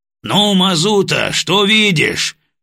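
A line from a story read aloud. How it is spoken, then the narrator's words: Loud question. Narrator (Russian): громко спросил полковник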